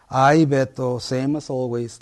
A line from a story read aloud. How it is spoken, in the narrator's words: Leticia sighs